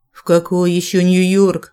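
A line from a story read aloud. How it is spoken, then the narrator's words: Deep bass from corridor. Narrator (Russian): пробасил из коридора мой любимый голос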